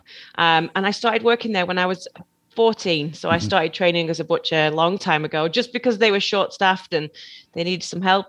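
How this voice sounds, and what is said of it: Slight Northwest English accent. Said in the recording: “You're picking up on a slight accent... So I'm from the northwest of England originally.”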